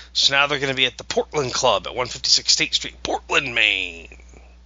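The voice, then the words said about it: Announcer voice. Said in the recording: “It's my announcer voice.”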